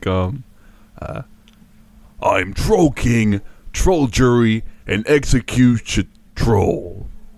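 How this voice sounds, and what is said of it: Imitates another person's voice. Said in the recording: “He sounds like Seth Rogen to me a little bit.”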